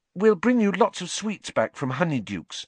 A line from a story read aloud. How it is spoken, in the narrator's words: said Hermione, looking desperately sorry for him